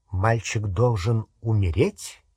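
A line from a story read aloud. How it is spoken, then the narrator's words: Very calm question. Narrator (Russian): спросил Снег очень спокойным голосом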